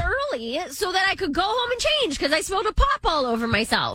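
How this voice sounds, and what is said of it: Cleveland accent. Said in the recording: “Whatever the Cleveland accent, whatever it is just in that sentence.”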